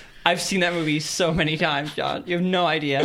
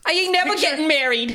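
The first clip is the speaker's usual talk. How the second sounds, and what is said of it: Impression of the My Cousin Vinny lady. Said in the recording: “smoking ... voice. ... The lady from My Cousin Vinny.”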